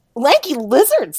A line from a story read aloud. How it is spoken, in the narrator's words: Wheatsey exclaimed